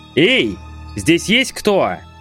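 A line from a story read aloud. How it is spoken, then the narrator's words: Shout. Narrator (Russian): крикнул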